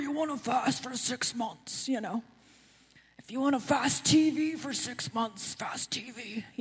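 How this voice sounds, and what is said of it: Imitates another person's voice, badly. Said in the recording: “People who know what he sounds like are laughing. Either that's because it's a really bad impression.”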